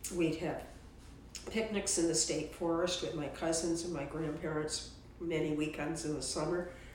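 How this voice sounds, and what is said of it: Hoarse, strained voice. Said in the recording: “I have laryngitis”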